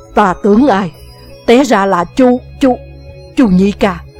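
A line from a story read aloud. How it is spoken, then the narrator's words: Flushed, loud shout. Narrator (Vietnamese): Mặt đỏ bừng, chàng lớn tiếng quát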